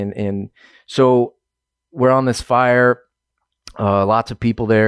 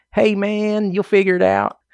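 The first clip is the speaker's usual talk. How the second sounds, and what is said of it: Laid-back impression of his handler. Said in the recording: “My handler was one of the most laid back guys I've ever met in my entire life ... I'll do an impression ... That's how he talked.”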